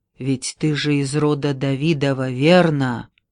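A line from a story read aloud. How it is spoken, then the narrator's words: Whisper after a pause. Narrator (Russian): прошептал, склонившись к уху мальчика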